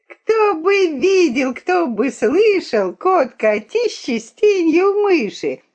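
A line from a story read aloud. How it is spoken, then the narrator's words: Shrill teasing chorus. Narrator (Russian): Дразнили они мыши брата, визгливой надоедливой стаей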